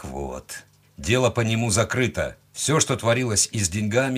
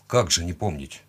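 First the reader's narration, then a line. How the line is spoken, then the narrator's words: Gruff mutter. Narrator (Russian): буркнул я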